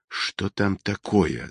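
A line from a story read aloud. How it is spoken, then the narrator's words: Whisper. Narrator (Russian): зашептал Холмс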